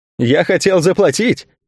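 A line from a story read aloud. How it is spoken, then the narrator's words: Laughing reply. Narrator (Russian): смеясь, ответил тот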